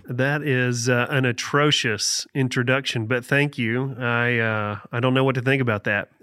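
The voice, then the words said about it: Appalachian accent. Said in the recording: “the best accent on staff ... Appalachian accent is the real thing ... you've got a good one”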